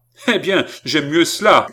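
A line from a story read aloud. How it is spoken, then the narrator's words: Shouted. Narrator (French): cria Philippe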